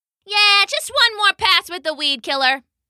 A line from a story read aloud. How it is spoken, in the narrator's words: the human shouted back